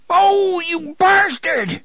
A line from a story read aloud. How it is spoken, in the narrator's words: Brandon shouted in surprise and pain